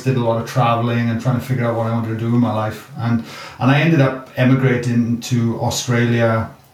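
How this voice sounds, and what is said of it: Welsh accent. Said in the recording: “you can hear my accent. I'm a product from Wales.”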